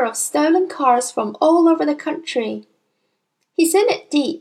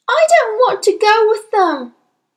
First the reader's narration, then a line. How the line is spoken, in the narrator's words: Matilda shouted suddenly